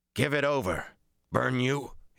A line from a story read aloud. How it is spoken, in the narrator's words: he snarled